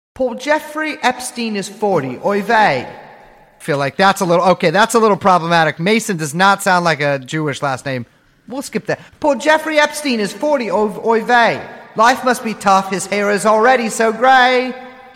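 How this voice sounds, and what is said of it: Put-on British accent. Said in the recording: “let me get my pitch right. I'm gonna do it in a British accent just to add an extra layer of realism. ... I love when you do a British accent”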